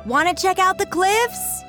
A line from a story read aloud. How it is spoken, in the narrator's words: hollered back